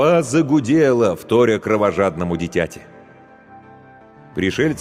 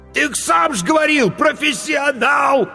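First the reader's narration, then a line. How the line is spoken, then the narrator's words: Desperate cry. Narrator (Russian): отчаянно выкрикнул корчмарь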